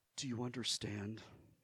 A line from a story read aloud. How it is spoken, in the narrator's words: she asked softly